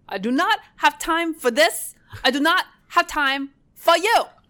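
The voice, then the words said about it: Put-on muddled Russian-German accent. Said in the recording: “she has this incomprehensible accent because the actual person in real life came from Russia, but she posed as a German heiress. So she had this mixture ... the accent is so insane ... do my impression ... there's an R thing that's missing”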